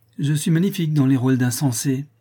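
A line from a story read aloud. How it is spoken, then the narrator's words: Exclaimed. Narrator (French): s'écria Laurence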